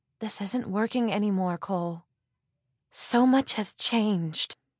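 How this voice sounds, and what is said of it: Defeated, resigned voice. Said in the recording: “In a defeated voice,”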